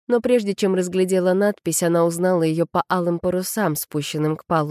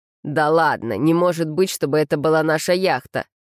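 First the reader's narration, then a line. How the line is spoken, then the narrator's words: Incredulous snort. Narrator (Russian): Винни недоверчиво фыркнул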